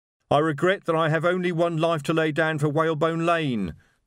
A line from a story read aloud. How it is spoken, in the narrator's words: the voice shouted from somewhere behind a wardrobe